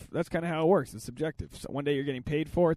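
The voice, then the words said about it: Rough, strained hungover voice. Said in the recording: “I was severely hungover in Boston. And I don't know, maybe you can hear my voice is all fucked up.”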